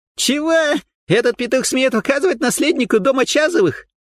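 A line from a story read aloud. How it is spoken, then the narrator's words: Young man shrieking again. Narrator (Russian): Опять завизжал парень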